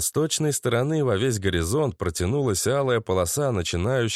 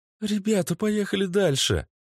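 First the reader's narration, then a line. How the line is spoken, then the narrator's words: Pleading. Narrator (Russian): взмолилась она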